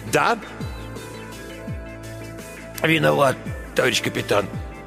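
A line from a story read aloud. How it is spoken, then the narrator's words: Dull mutter. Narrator (Russian): глухо пробормотал человек с лангеткой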